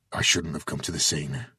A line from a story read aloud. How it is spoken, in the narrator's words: he mumbled